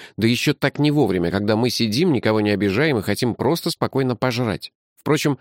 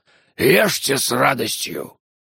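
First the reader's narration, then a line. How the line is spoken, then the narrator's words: Unexpectedly harsh hoarse voice. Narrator (Russian): сказал неожиданно резким хриплым голосом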